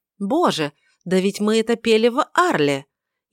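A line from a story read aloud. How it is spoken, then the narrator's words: Sudden exclamation. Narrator (Russian): внезапно воскликнула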